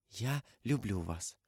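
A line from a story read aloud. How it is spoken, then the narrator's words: Timid close whisper. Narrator (Russian): Она робко наклонилась к нему и прошептала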